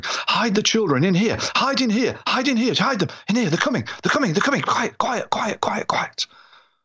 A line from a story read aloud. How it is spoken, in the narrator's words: half shouting, half whispering